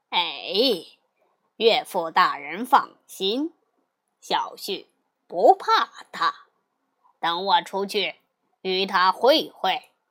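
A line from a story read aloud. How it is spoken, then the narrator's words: Laughing. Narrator (Chinese): 驸马却笑道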